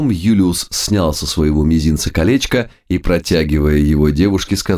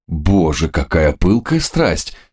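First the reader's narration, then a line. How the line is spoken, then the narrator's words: Comic exclamation. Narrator (Russian): с комической ужимкой воскликнул Самуил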